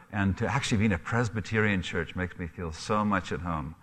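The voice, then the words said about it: Mixed Scottish, Canadian and African accent. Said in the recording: “I am Scottish. My accent is probably a mixture of a number of things ... a bit of a Canadian twang there, too ... I have an accent from there”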